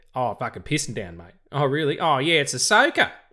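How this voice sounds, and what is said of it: Australian accent. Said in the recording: “when an Australian person tells you ... maybe that's just my accent doing funny things”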